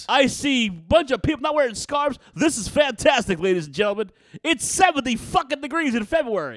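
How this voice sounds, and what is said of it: Nasally old-time radio DJ voice. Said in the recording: “doing that nasally voice all day, every day, just to be a prick ... I sound like Ron Lundy ... CBS FM ... You sound like Howard Stern. WNBC.”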